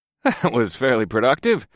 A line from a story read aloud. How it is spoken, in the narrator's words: I laughed